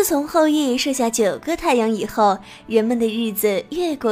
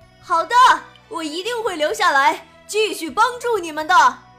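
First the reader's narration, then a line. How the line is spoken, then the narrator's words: Proud, loud, cheerful. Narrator (Chinese): 后羿满面笑容，很神气地，大声说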